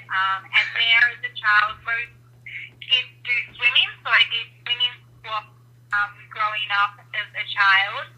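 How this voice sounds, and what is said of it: Australian accent. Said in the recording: “I grew up in Sydney, Australia, which I'm sure you can tell by my accent.”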